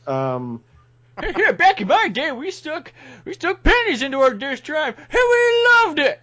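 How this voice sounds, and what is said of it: Old man voice. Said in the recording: “old man voice”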